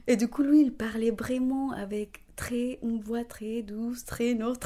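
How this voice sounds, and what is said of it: Sing-song Spanish-speaker accent in French. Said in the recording (French): “quand je parle en français, ça se voit, mon accent, parce que je chante les français”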